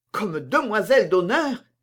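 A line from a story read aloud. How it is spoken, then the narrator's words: Two voices crying out together. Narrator (French): s'écrièrent à la fois Madame de Saint-Rémy avec désespoir et Mademoiselle de la Vallière avec joie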